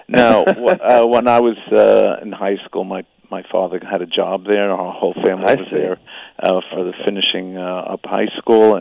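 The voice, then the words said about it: New York accent, slight Australian inflections. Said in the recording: “I still sound like I'm from Brooklyn or Queens ... a little inflections of Australian in these occasional words here and there”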